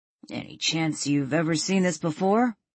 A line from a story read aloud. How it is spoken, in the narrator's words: Brian asked with a chuckle